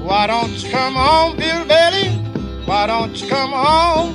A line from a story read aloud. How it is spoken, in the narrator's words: She moaned and she groaned the whole night through